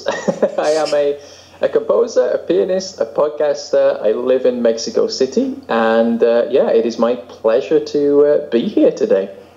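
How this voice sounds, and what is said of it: English accent. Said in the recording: “I am an Englishman, so that's what that strange accent is”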